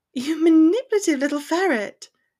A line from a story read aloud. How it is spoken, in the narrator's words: laughed against the skin of his neck